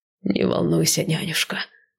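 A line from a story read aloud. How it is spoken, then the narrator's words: Tired reply. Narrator (Russian): устало отозвался Сай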